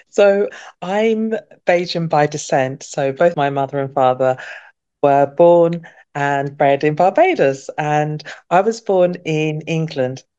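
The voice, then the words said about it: British accent. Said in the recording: “we're hearing the British accent”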